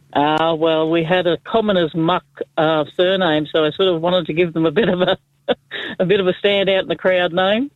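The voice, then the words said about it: Strong Australian accent. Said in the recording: “such a rich Aussie accent”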